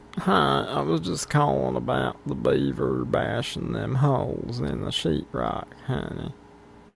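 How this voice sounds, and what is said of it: Weird put-on prank call voice. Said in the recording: “He heard a weird voice and he hung up.”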